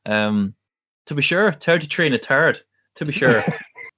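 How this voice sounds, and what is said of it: Put-on Irish accent. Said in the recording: “Can you say something in an Irish accent?”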